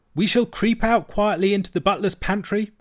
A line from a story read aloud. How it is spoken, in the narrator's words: cried the mole